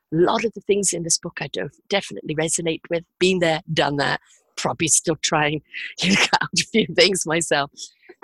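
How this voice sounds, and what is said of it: Hoarse, chesty voice from cold. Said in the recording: “Bad cold this week, so sounding a bit hoarse and a bit chesty.”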